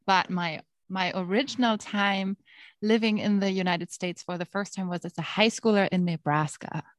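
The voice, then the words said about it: German accent. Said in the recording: “As you can hear by my accent, I am actually German”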